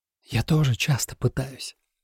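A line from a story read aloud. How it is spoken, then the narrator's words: Whisper close to ear. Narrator (Russian): шепнул кто-то в самое ухо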